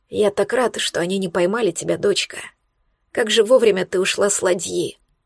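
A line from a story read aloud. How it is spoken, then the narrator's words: Hoarse wheeze. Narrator (Russian): прохрипел Эйнар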